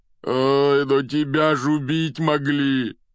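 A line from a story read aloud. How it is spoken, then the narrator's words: Moaned. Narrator (Russian): простонал Хагрид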